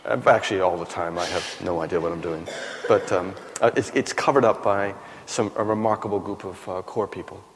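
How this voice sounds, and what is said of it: American accent. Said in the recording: “we'll pick up from your accent that you haven't grown up in England ... Originally from the United States”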